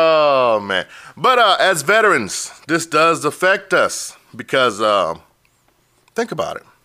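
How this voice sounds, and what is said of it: Usual voice. Nothing is said of it.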